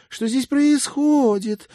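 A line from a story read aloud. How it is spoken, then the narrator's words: Shrill squeal. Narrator (Russian): взвизгнула девушка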